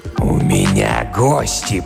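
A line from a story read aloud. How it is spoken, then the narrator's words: Growling. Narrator (Russian): прорычал он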